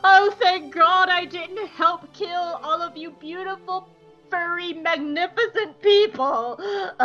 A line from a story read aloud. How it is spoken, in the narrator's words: is sobbing into his new husband's shoulder